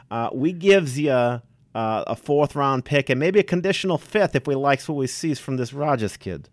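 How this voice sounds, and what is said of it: Put-on accent. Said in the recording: “where did you get that accent from?”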